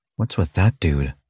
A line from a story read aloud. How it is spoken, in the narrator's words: Charlie muttered between bites